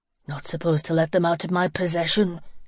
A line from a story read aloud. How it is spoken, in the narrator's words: grunted